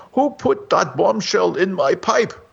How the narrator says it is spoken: exclaimed the startled smoker

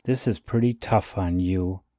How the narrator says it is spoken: he muttered

